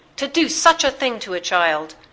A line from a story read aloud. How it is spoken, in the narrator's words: cried, his eyes blazing